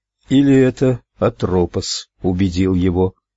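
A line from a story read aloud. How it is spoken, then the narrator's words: Dejected tone. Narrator (Russian): уныло произнесла Луиза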